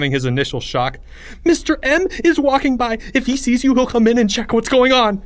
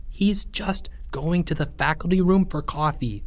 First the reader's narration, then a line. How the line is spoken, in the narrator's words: Charlie whispered